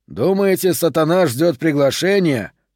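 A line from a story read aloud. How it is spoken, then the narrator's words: Plain. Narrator (Russian): спросил Мустафа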